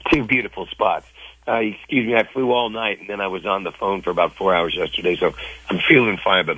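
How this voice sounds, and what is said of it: Worn-out, strained voice. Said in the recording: “my voice is pretty shot”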